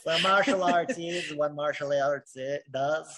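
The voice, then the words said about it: Put-on Southern accent. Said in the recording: “That was my best Southern accent I can make.”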